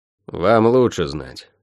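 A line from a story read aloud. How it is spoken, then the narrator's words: Mutter. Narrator (Russian): пробурчал Шен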